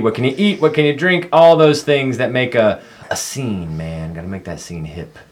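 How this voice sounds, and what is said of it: Old-style radio disc jockey voice. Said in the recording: “sometimes I want to like get in here with my radio voice. I do that old disc jockey thing.”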